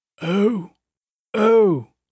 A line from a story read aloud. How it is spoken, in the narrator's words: the voice croaked